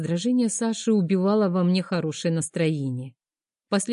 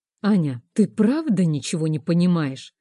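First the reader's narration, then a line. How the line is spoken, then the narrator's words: Very loud exclamation. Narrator (Russian): воскликнул так громко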